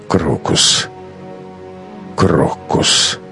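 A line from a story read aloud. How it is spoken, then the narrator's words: Mumble. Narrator (Russian): пробормотал Матвей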